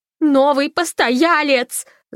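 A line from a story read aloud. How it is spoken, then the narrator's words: Yell. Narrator (Russian): завопила Фанни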